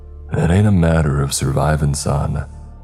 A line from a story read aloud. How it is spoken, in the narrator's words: Yago rasped